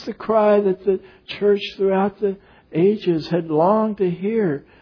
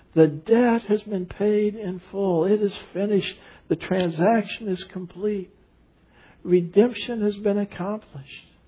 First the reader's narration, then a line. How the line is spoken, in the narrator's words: he cries out